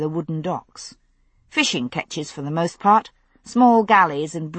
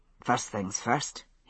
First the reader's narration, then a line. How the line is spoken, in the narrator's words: he muttered